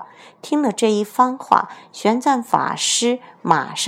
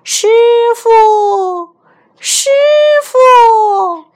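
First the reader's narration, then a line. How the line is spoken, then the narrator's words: Distant shout. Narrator (Chinese): 这荒山野岭的，怎么会有人的喊声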